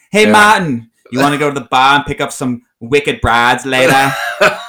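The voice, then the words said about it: New England accent. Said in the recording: “Any kind of New England accent... I want to hear your New England accent... That's pretty accurate, actually.”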